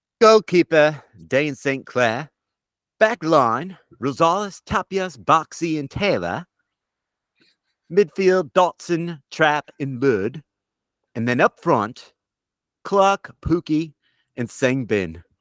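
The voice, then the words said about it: Unconvincing put-on accent. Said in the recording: “Sometimes you go into an accent and you realize that you're bad ... You lost a little steam. It was like your heart wasn't in it”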